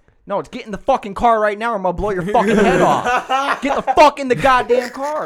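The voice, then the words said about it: Loud yelling. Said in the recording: “sorry for yelling that loud”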